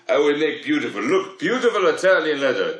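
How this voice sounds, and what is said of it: Put-on foreign salesman accent. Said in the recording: “what kind of accent is that supposed to be? ... if you're not gonna do an Italian accent, ... Is that Canadian? ... it's Arctic.”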